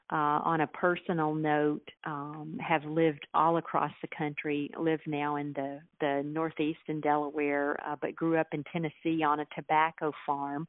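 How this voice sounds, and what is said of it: Southern US accent, not Delaware. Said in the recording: “that's no Delaware accent”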